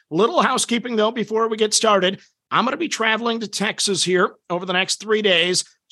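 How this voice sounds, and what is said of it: Voice sounds very bad. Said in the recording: “my voice is really, really bad”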